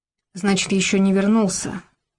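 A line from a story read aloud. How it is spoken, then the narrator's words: Undertone remark. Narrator (Russian): вполголоса обронил Николай Афанасьевич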